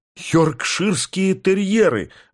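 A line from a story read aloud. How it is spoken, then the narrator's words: Exclaiming. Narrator (Russian): воскликнул я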